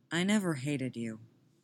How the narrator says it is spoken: Tim says evenly

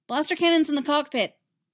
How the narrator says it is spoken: Anakin yelled

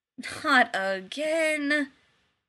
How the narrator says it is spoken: he groaned

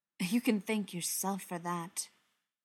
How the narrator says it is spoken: Beckett said sharply

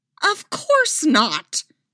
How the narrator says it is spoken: Leia snapped

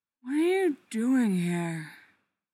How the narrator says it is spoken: slurs out

